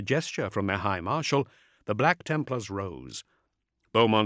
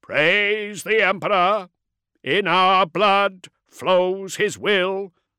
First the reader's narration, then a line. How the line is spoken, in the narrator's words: each marshal intoned